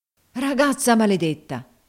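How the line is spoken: Exclaimed. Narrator (Italian): esclamò Legret

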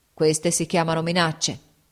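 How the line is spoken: Grumbling. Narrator (Italian): brontolò

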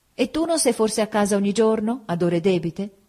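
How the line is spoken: Exclaimed. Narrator (Italian): Augusta allora esclamava

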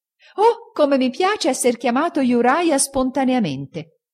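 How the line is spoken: Exclaiming. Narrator (Italian): egli esclamò

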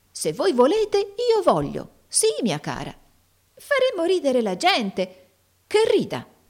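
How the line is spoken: Lively exclamation. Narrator (Italian): esclamò Tim vivamente

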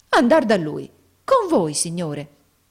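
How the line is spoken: Exclaimed. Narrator (Italian): esclamò Nicola

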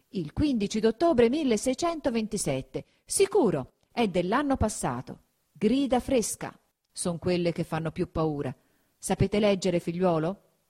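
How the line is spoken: Exclaiming. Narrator (Italian): fatto un viso ancor più serio, esclamò

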